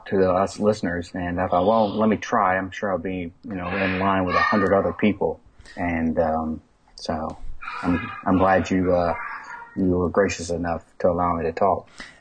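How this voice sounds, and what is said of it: Mild Alabama Southern accent. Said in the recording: “Your accent is not quite thick enough. It at least exists ... I am Alabamian by birth.”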